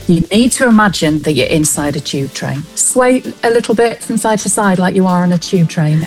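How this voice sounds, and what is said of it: Natural Manchester accent. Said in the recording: “What you're hearing now is my natural Manchester accent.”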